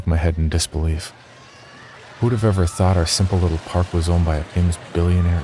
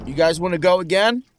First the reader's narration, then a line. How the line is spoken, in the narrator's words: Brandon yelled to the others